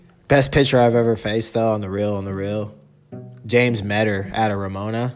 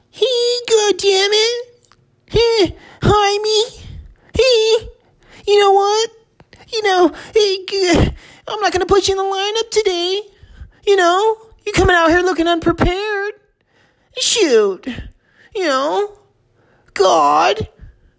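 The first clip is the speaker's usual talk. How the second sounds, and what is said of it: Imitates another person's voice. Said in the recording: “my Coach Lovato impression”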